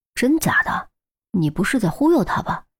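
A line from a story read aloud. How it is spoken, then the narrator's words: Startled, hushed voice. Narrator (Chinese): 郑月闻言一惊，压低声音说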